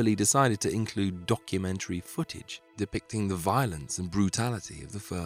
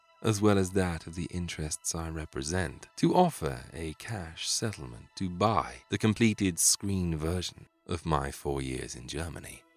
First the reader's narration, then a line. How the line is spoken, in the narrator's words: he purred